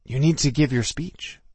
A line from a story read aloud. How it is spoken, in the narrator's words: Ryan whispered to me